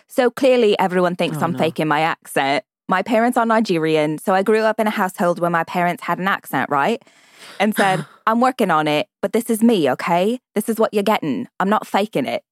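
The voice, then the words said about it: Put-on British accent, proper to Cockney. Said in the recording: “I love the Cockney-ish of that accent you just did... you started more proper and then got to Cockney”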